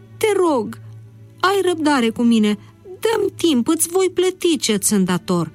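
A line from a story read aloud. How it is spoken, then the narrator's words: Breathless pleading. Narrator (Romanian): Respirând cu greu, el a implorat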